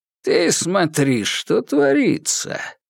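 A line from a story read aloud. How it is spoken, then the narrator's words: Creaky voice. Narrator (Russian): проскрипел Жигулин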